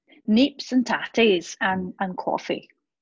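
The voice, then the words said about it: Bad put-on Scottish accent. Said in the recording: “That was a very bad accent. ... I have some Scottish roots”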